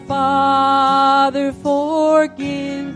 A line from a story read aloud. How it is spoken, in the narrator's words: And he cried